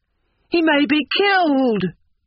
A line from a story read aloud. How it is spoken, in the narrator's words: cried the old man